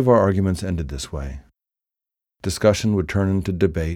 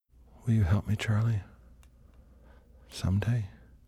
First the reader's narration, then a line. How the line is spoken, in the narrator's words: She whispered, her face inches away from mine